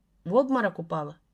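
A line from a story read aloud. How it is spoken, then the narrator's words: Plain. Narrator (Russian): спросил он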